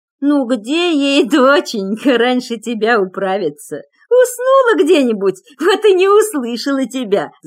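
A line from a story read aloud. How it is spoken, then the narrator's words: Old woman laughing. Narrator (Russian): засмеялась баба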